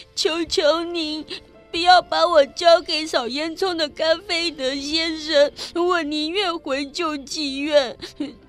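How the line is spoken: Tearful pleading. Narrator (Chinese): 法官的话让奥利弗哭得更伤心，他跪了下来，双手紧握着，哀求道

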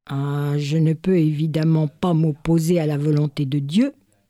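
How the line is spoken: Plain. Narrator (French): répondit le sultan

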